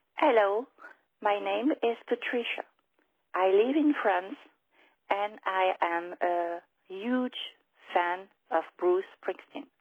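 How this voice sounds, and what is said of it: French-accented English. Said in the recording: “my bad French accent”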